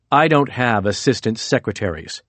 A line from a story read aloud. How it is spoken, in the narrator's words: Tillerson said coldly